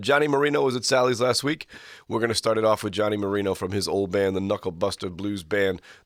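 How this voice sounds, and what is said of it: Hoarse, worn-out voice. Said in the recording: “My voice is shot. ... So you're coughing and hacking. My voice is shot.”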